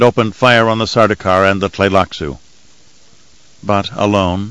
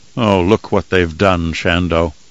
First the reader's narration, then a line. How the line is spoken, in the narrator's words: he whispered in a morose voice, as if he were a ghost along with her